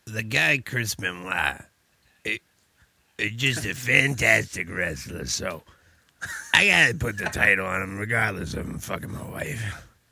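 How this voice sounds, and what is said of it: Imitates another person's voice. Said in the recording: “Kevin Sullivan impersonation ... That's a good Sullivan. That's probably one of the best Kevin Sullivans I've heard.”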